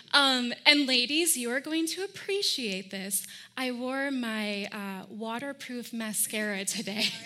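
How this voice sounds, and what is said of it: Northern US nasal accent. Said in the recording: “the remnants of a northern nasally accent”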